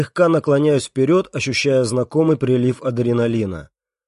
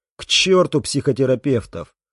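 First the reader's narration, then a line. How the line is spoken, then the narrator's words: Sharp reply. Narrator (Russian): резко отвечаю я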